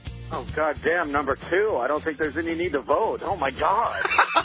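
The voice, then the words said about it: Horrified, visceral reaction. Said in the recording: “I like the visceral horror I can hear in your voice.”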